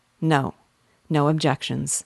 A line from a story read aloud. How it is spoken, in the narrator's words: said Nancy, in a cold tone